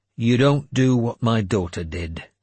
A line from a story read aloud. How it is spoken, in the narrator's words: I said grimly